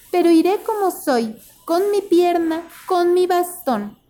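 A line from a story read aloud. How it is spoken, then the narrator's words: Sudden sweet voice. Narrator (Spanish): dijo de repente con su voz dulce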